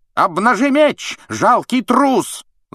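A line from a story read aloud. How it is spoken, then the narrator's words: Yelling. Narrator (Russian): заорал на него сэр Кэдоган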